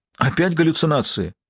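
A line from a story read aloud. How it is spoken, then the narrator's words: Exclaimed. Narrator (Russian): воскликнул Лэнгдон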